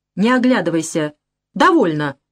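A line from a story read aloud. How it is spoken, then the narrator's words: Sharp, cutting off. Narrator (Russian): обрывает резко Вера Филипповна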